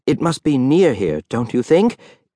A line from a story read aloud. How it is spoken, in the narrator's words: eagerly